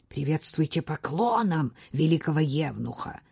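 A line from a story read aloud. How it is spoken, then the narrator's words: Furious hiss. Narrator (Russian): яростно прошипел Осман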